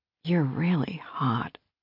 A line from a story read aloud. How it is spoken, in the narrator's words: she whispered